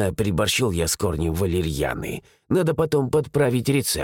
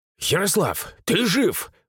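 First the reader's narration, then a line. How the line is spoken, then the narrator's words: Exclaimed. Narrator (Russian): воскликнул Илья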